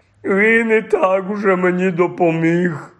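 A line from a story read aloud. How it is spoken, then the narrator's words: Groaning. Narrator (Ukrainian): простогнав Гегріт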